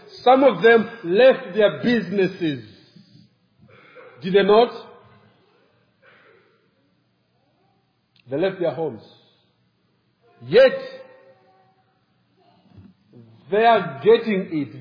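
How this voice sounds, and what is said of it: African accent. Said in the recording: “you guys have to do a double work of understanding my accent ... Because I'm African”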